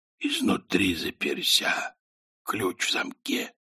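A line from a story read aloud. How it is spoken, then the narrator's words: Whisper. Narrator (Russian): прошептал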